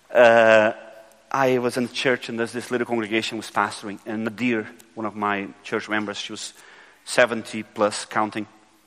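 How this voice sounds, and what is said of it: Brazilian accent in English. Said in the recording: “Back home in Brazil, where I come from, I suppose you figure by the accent that I'm not British.”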